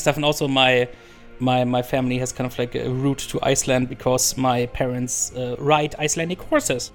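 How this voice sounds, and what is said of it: Speaks with an accent. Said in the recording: “It's your accent just makes it sound beautiful”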